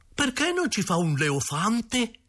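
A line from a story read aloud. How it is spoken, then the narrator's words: Exclamation. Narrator (Italian): Angiolino ha esclamato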